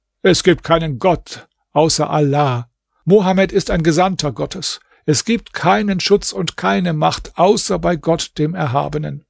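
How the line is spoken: Calling out. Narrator (German): rief

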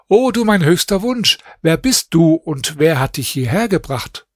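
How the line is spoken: Calling out. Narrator (German): rief ihr zu

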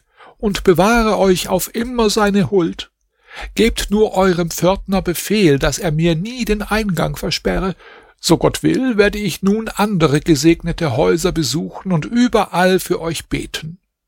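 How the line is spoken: Old woman calling out. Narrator (German): rief die Alte

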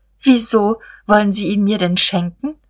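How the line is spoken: Stammering. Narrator (German): Er stammelte

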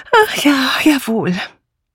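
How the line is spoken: Sighing. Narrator (German): Dora Banner seufzte

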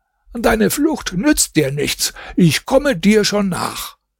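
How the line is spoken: Called out. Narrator (German): rief ihm zu

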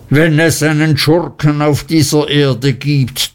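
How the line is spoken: Thundering. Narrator (German): donnerte Mr

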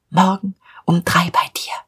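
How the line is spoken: Whispered. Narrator (German): flüsterte ihm zu

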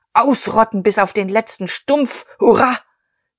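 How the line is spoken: Crowd thundering cheers. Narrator (German): Der Kriegerverein donnerte Beifall

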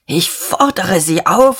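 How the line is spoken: Hoarse with agitation. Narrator (German): sagte Dieterich heiser vor Erregung

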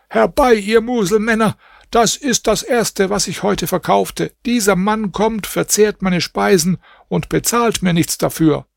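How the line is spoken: Screaming. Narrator (German): der Koch schrie

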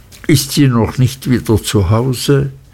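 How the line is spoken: Sad. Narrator (German): sagte ich traurig

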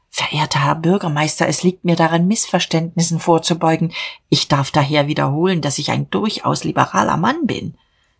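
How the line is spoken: Trembling whisper. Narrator (German): flüsterte bebend

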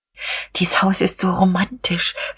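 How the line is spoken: Whispered. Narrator (German): flüsterte Frau von Vulko

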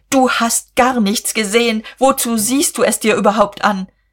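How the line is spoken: Called. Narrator (German): rief Guste und Käthchen

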